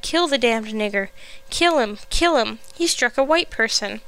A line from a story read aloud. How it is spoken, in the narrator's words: some cried